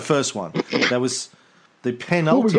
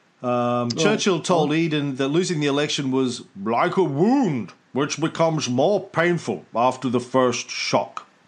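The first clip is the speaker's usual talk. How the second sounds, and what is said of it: Imitates another person's voice. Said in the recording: “my last Churchill impersonation.”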